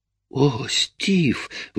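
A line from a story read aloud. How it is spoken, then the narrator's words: Breathless exhale. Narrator (Russian): выдохнула она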